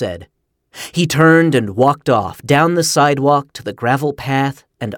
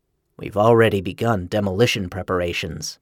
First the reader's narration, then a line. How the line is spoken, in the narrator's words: Carnap said calmly